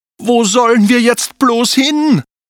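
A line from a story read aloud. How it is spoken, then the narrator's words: Desperate call. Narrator (German): rief Anton verzweifelt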